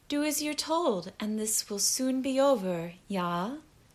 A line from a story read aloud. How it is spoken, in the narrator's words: Anya murmured with a smile